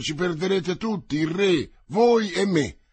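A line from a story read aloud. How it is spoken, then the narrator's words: Frightened cardinal's heartfelt cry. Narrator (Italian): A quel grido partito dall'anima del cardinale spaventato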